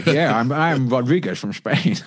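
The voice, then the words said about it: Imitates another person's voice. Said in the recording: “Sean Connery's Spanish accent ... on fire with the acting”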